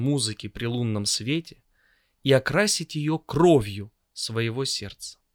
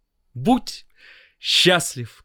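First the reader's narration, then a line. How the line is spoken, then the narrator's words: Shouting. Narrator (Russian): кричал ему Соловей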